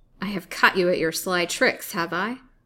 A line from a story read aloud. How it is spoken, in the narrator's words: said, with a snort of rage